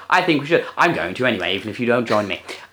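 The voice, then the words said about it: Put-on clipped British accent. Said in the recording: “a little bit English, shall we say, chaps? ... in this sort of clip ... British ... Accent?”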